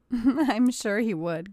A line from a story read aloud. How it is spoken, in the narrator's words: giggled Katie